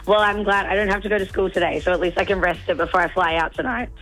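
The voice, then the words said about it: Hoarse, nearly lost voice. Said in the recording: “I don't have a voice... You sound worse than me... I've lost my voice”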